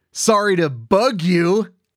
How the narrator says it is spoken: Owl howled with a laugh

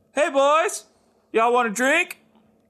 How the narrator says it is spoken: a bartender yells out to them

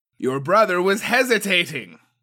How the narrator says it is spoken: yelled over the clashing steel

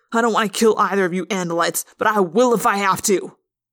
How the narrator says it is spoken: the man snapped

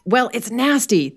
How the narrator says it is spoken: the young man exclaimed

